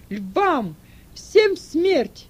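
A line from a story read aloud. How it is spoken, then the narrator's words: Shout. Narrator (Russian): крикнул Сатурнин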